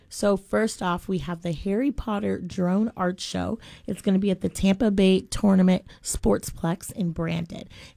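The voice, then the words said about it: Slightly raspy, hoarse voice. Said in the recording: “As you can hear, I'm still a little raspy. We'll call it acute rasp”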